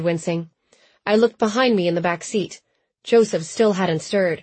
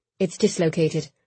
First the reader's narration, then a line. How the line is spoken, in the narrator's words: he said quietly